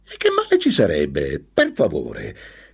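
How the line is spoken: Bitter exclamation. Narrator (Italian): esclamò vicino a lei con acredine la sua compagna

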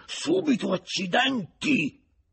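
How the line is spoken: Furious yet pleased exclamation. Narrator (Italian): esclamò Renal fuori di sé dalla collera, e tuttavia più contento di quanto non fosse stato in quelle ultime 12 ore

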